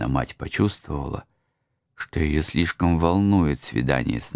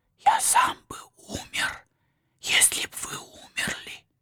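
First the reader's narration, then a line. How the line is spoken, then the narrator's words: Tearful whisper. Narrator (Russian): плакал на ее груди и шептал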